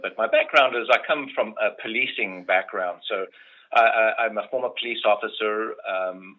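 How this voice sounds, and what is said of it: Speaks with a distinctive accent. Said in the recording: “you've got a really cool accent”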